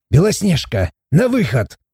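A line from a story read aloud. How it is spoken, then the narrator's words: Barking shout. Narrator (Russian): рявкнул Морт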